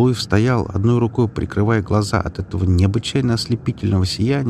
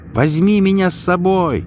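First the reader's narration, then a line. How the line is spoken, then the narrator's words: Loud shout. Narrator (Russian): прокричал пришельцу Галуев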